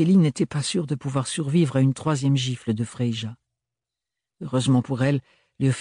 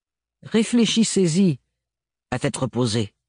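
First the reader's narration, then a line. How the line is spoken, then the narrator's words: Said curtly. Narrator (French): dit-elle d'un ton sec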